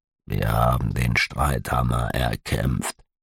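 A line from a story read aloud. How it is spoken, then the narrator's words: Quiet speech. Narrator (German): sagte leise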